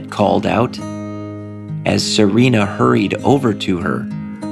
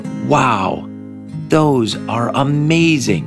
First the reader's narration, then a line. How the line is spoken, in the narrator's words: Serena exclaimed